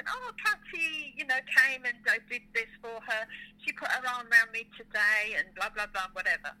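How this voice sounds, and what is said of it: Imitating mum's Spanish accent. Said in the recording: “my mum in a Spanish accent”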